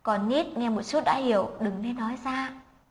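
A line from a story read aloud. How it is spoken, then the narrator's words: Embarrassed soft whisper. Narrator (Vietnamese): Anh kia đỏ mặt ái ngại cười khan hai tiếng, dưới tình thế cấp bách lướt đến bên tai anh nhẹ nhàng giải thích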